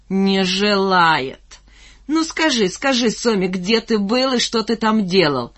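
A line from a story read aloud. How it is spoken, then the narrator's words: Roaring with laughter. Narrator (Russian): Он хохотал и заливался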